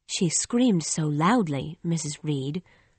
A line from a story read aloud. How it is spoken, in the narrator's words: said Bessie softly